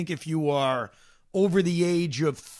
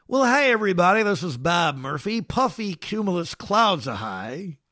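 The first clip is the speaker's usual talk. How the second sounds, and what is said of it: Imitates a baseball announcer's voice. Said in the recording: “That's my imitation of him... That's not my best imitation. Here's my best imitation... Okay, it's terrible.”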